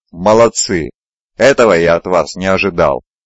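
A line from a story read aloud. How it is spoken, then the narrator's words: Cheerful laughter. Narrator (Russian): Он весело рассмеялся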